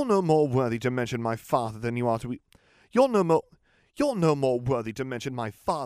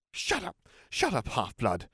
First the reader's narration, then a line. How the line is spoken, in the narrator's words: snarled Draco